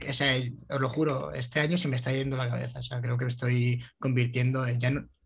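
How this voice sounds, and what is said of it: Put-on Galician Spanish accent. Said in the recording (Spanish): “ahora mismo está hablando con acento gallego ... Ah, sí, estoy hablando con acento gallego. sí, sí, puede ser”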